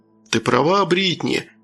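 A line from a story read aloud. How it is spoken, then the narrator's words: Laughing. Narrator (Russian): хохотнул Джон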